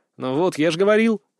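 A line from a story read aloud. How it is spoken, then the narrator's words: Smirking snort. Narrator (Russian): хмыкнул я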